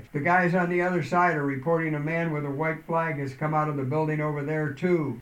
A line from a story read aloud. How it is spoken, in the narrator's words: yelled out